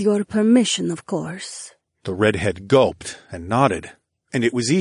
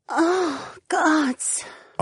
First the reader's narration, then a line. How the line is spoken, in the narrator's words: Ariana moaned quietly